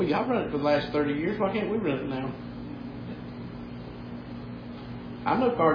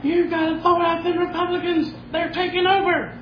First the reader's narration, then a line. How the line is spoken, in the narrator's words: there's a woman screaming on YouTube